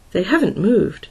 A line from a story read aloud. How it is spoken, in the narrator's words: said uneasily